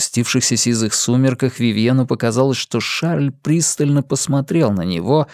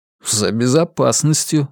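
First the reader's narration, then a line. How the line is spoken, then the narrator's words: Snorting. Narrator (Russian): хмыкнул Вивьен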